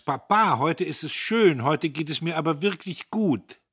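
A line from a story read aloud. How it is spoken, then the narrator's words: Calling back over shoulder. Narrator (German): Sie rief rückwärts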